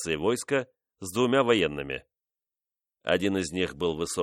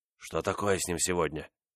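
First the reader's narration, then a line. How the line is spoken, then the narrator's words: Whisper. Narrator (Russian): шепнул Буало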